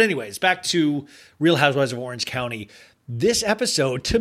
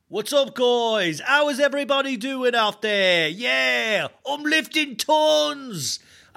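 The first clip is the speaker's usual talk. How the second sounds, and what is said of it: Put-on Australian accent, slightly British. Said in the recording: “I have been working on my Australian accent. ... I think it's like, it's a little British too, but I think it's in the right direction.”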